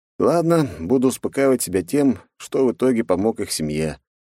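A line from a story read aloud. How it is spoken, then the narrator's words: Sighing. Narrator (Russian): вздохнул я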